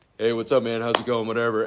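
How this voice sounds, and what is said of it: Imitated very deep male voice. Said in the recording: “Landon had this like really deep voice... deeper than mine”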